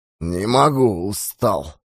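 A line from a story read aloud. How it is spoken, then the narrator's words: Tired mumbling. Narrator (Russian): бормотал голландец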